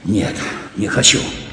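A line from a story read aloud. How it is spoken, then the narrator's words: Muttered. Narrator (Russian): пробормотал Глебов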